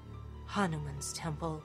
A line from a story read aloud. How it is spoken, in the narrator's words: Augustus breathed